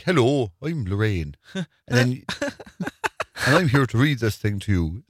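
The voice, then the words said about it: Put-on Kerry accent. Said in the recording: “It's a Kilmarry accent. ... all the relations from Kerry be like, what's she saying?”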